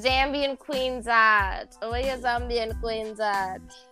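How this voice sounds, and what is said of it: Convincing put-on accent. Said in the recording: “That was a good accent.”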